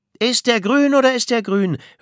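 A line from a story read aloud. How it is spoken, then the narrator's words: Mocking retort. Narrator (German): höhnte Myrna zurück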